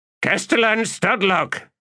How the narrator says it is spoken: Torvald Norm called out, pleased

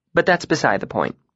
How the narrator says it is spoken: she said dryly

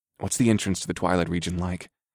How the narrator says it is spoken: I asked in a low voice

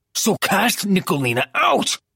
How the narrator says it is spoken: roared, in a wave of fury, of helplessness

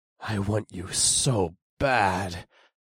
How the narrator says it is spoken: I snarled

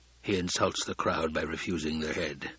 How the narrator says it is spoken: the Baron muttered

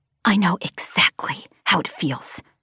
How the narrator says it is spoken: I hissed at Braid

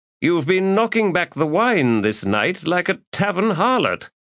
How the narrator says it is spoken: Hannot Orr drawled

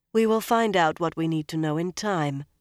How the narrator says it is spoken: Moiraine said smoothly

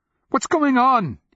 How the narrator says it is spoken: he cried

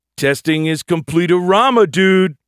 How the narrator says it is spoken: Bilby shouted

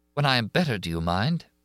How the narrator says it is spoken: her voice shook

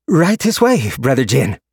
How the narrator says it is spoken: called out

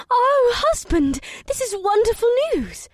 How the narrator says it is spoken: Ibsith squealed and clapped her hands in delight

